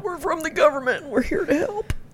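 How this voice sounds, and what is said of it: Imitates another person's voice. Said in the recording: “that, was, a good impression.”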